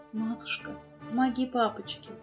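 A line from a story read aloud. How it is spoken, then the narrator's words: Faint, fearful child's plea. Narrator (Russian): Тихонечко, еле слышно, боясь, что ее кто-то услышит, просила девочка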